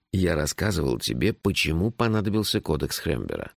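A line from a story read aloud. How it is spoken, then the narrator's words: Gentle question. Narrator (Russian): мягко спросил шеф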